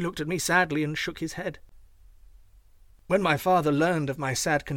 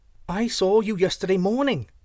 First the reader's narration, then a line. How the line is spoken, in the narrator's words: shouted Chang